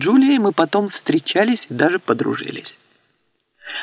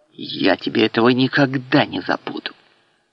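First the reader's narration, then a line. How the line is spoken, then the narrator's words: Menacing whisper. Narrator (Russian): скривил тонкие губы и прошептал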